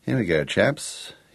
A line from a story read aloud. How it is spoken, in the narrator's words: he murmured